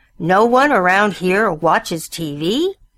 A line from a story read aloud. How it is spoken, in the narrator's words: Bill roared